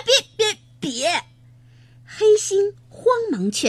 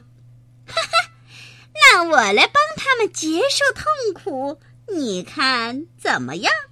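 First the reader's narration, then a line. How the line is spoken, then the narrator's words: Cold sneer. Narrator (Chinese): 红毛冷笑一声说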